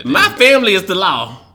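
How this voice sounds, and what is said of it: Put-on Tennessee accent. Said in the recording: “You didn't say it with your Tennessee accent. You got to say.”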